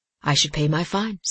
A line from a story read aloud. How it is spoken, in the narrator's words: said Simon quietly